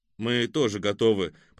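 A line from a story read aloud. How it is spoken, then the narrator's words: Grumbling. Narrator (Russian): проворчал Ребров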